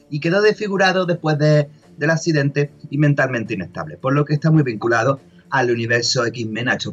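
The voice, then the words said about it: Regional Spanish accent. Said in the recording (Spanish): “este acento tan característico de, nuestro país”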